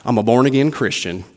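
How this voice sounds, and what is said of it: Put-on Southern Texas twang. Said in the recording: “You hear that twang? I picked up a little bit of it.”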